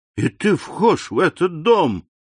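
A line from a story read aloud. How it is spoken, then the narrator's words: Naive exclamation. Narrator (Russian): наивно воскликнул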